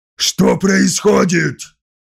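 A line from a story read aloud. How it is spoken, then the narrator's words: Angry question. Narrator (Russian): сердито спросил Скарсон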